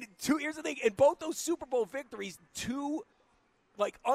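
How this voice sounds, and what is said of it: Usual voice. Nothing is said of it.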